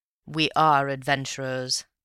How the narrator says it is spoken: said Raffles gravely

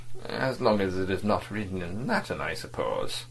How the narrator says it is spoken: Vladimir, smiling faintly, murmured

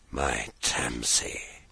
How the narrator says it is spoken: whispered heavily

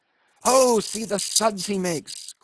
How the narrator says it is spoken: cried Flask

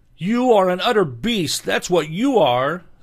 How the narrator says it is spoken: said Ilinka, turning miserably away and sobbing

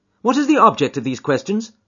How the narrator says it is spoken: asked sharply

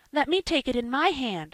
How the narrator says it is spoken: screamed Joel, reaching eagerly

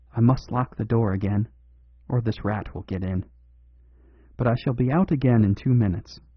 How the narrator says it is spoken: he whispered rapidly to his companions

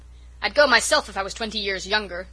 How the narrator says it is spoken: Norman Douglas was shouting

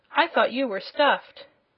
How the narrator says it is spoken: she exclaimed

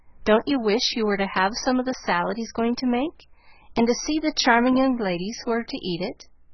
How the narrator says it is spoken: said, laughing

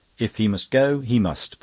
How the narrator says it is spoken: put in Mary firmly

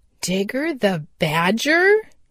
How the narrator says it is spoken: he exclaimed

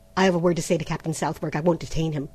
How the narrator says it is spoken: said Trent hastily

